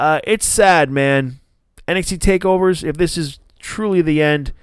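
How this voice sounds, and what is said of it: Usual voice. Nothing is said of it.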